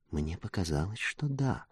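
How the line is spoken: Quiet reply. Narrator (Russian): так же тихо ответила она

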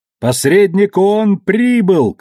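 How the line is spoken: Shouting to each other. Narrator (Russian): кричали они друг другу

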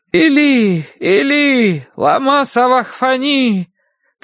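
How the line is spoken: Loud anguished cry. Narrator (Russian): возопил Иисус громким голосом

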